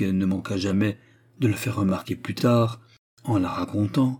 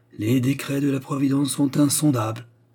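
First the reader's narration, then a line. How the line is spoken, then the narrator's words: Repeated with a sigh. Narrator (French): répétait-il en soupirant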